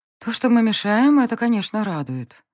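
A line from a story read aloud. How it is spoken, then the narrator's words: Sighing through a yawn. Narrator (Russian): вздохнула я, жутко зевая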